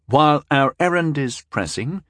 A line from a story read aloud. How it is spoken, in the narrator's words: Tyndall replied smoothly